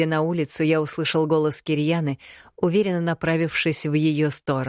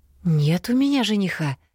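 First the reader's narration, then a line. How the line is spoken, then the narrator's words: Confused witch answering. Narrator (Russian): растерянно ответила ведьма Кирьяне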